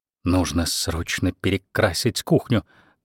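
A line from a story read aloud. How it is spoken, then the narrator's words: Whispered. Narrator (Russian): прошептала Беверли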